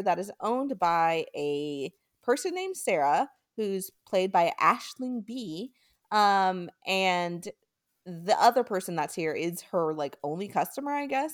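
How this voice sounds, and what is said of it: American accent. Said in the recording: “It probably sounds better not in my American accent ... this American accent's not doing that name justice”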